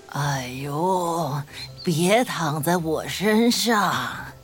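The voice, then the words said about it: Rough, hoarse talking-tree voice. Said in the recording (Chinese): “大树用粗哑的声音说”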